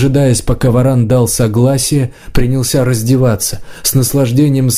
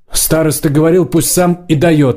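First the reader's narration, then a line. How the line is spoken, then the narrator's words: Blurted shout. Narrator (Russian): выкрикнул варан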